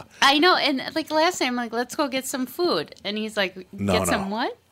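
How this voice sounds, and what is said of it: Minnesota accent with drawn-out vowels. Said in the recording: “my accent ... You're the quintessential Minnesota mom ... she said food, and it was about 14 syllables long ... The Minnesota O's.”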